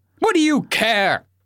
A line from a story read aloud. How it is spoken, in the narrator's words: I barked